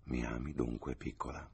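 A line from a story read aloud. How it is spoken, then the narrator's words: Murmured. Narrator (Italian): mormorò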